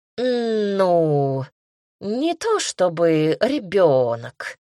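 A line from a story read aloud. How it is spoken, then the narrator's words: Drawled, cat. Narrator (Russian): протянул кот Сережа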